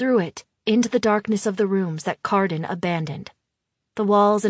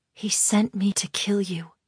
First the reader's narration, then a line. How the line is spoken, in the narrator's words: I whisper against his ear